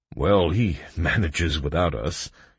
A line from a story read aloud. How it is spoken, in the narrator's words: chuckled Cray